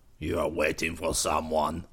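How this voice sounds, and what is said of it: Needling, taunting character voice. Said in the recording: “asked in a needling voice”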